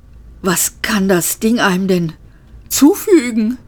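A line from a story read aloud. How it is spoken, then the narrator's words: Panting. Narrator (German): keuchte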